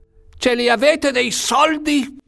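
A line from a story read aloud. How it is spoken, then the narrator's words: Shouted. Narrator (Italian): gridò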